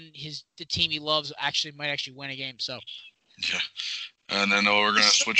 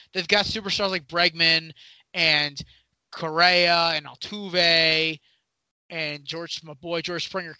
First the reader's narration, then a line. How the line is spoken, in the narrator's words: Connecticut shout out